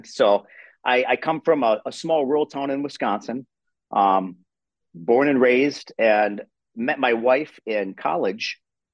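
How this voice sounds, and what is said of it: Wisconsin accent. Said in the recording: “you sound like you're from Canada ... I'm from Wisconsin. And they say, you know, we have that Wisconsin accent.”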